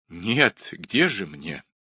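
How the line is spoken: Sighing woman. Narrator (Russian): вздохнула Скавронская

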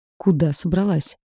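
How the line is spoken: Angry growl. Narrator (Russian): гневно прорычал Гризли

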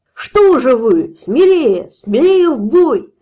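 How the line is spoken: Shouting. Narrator (Russian): кричал черный пузырь

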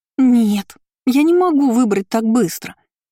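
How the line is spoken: Groaned. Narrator (Russian): простонала

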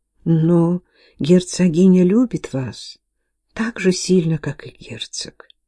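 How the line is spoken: Gentle, comforting. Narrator (Russian): ласково утешая девочку, продолжала Агнес

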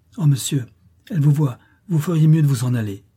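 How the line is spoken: Exclaimed. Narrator (French): s'écria Grace

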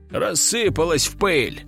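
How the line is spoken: Scoffing grunt, man. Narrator (Russian): хмыкнул инспектор

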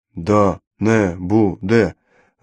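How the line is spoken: Several listeners mumbling dreamily. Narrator (Russian): Забормотали несколько слушателей, словно во сне

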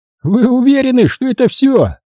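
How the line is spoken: Mocking laughter. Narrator (Russian): издевательски захохотал Ламсден

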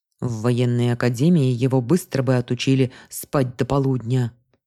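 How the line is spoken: Grumbled. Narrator (Russian): буркнул Вальтер

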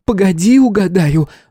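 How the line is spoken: Excited yell. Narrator (Russian): завопила она

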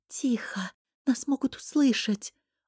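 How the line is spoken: Whispered. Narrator (Russian): шепнул

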